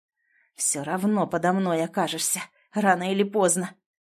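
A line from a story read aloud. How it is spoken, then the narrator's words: Hissing through teeth. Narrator (Russian): прошипел Сергей сквозь зубы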